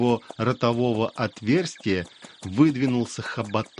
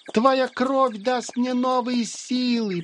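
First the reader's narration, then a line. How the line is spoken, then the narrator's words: Squeaky moth voice. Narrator (Russian): пропищал мотылек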